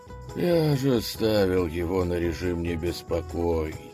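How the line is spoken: Weary remark. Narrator (Russian): устало бросил Василевс стражникам

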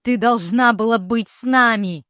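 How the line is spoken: Mother screaming, then choking. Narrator (Russian): вопит мать во все горло и тут же начинает задыхаться

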